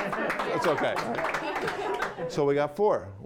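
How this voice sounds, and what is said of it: Usual voice. Nothing is said of it.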